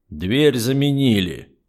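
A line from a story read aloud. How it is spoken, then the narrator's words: Gloomy. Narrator (Russian): мрачно отметил полковник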